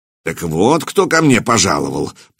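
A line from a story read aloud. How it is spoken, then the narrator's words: Grumbled. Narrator (Russian): проворчал он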